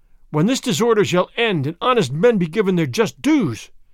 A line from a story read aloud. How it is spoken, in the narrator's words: Fray Felipe cried